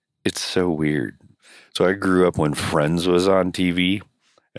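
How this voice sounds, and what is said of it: Husky voice, unlike her usual sound. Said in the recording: “It's my sexy voice... You don't sound yourself at all.”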